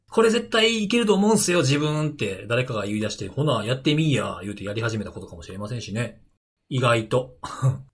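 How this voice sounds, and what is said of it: Put-on Kansai dialect. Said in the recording (Japanese): “関西弁で...ちょっと言うと身近に感じますね”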